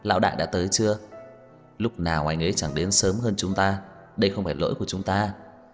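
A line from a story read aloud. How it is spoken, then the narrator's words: Men laughing and chatting. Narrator (Vietnamese): mấy người đàn ông cũng cười nói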